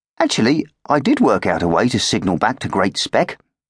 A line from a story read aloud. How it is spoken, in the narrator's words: said Gwimper